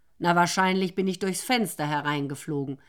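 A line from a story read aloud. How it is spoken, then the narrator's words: Loud meowing speech. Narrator (German): sagte, maunzte laut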